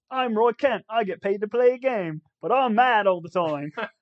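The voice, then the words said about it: Imitation with a British accent. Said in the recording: “Can you do the impression that she does? ... A little bit of British accent for you there, too.”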